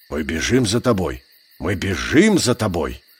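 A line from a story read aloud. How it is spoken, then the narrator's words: Mumbling wolf. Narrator (Russian): пробормотал серый брат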